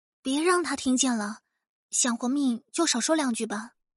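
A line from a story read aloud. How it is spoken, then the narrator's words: Embarrassed whisper. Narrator (Chinese): 张子清…红着脸小声说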